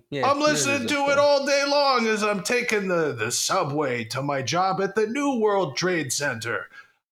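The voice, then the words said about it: Put-on Jersey New York accent. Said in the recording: “I hope that this is kind of a Jersey, New York accent.”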